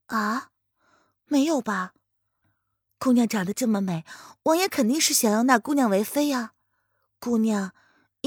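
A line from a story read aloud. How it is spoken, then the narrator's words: Casual offhand question. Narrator (Chinese): 林渊 状似无意的开口闲问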